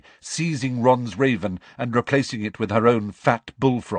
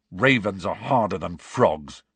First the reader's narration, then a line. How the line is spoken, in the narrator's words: said Ron testily